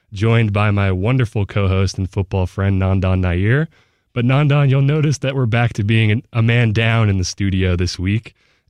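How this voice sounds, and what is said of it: Voice sounds affected by illness. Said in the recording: “You'll have to excuse my voice for today. I'm a little bit under the weather.”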